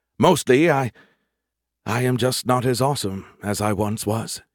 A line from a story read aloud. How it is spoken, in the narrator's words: he sighed